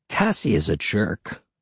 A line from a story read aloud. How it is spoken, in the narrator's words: Will muttered